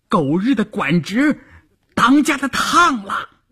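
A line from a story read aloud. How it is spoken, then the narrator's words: Shouting. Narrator (Chinese): 有人喊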